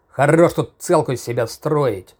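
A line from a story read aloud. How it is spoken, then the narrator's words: Growled in the face. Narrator (Russian): Прорычал он прямо в лицо сыщику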